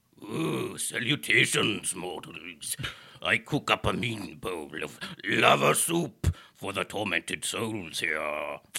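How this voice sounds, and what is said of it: Fiery soup demon character voice. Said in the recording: “do a voice for the fiery soup demon ... do his voice”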